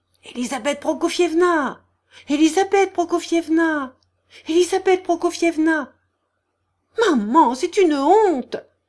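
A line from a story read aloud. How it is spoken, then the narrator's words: Shouting. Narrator (French): cria Aglaé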